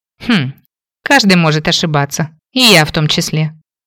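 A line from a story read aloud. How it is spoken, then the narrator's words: Scoffing grunt. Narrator (Russian): хмыкнула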